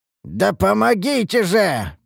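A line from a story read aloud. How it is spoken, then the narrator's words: Hoarse rasp. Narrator (Russian): прохрипел я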